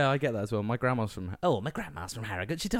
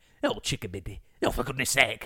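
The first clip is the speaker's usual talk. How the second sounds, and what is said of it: Put-on Northern English accent. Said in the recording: “She talks like that... It's a lovely, lovely calming accent, the Northern accent.”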